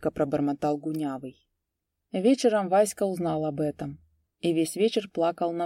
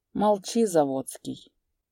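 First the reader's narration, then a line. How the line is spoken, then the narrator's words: Calm, stern. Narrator (Russian): спокойно и сурово сказал Гунявый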